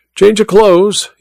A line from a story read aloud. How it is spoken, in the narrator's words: he asked